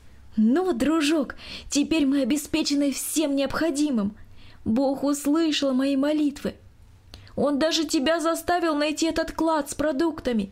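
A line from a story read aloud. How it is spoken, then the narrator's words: Joyful voice. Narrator (Russian): Екатерина радостно сказала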